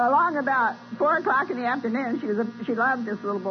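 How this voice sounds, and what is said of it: Usual voice. Nothing is said of it.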